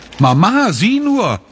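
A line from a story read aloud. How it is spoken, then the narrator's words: Calling out. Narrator (German): ruft sie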